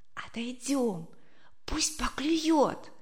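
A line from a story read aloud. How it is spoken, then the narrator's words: Whispered. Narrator (Russian): зашептала она маме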